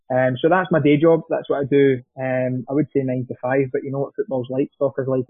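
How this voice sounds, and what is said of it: Broad Scottish accent. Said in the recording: “I've got quite a broad Scottish accent”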